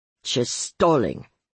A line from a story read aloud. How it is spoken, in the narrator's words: Louis Cesar snarled